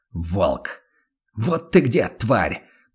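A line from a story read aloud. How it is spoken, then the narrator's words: Hiss, almost relieved. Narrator (Russian): прошипел Ван Ален почти с облегчением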